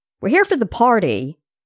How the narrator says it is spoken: Yoshi shouted out

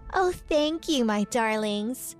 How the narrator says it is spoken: said Whitney in a sweet voice

